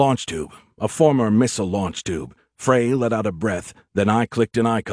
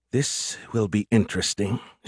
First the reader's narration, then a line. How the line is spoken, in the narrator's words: she muttered to herself